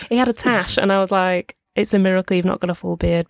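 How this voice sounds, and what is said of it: Strong Northern English accent. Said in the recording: “Haydock St. Helens, good accent, good strong accent. ... it's those vowels that everyone is just like, oh, I knew you were Northern ... you did that weird vowel thing”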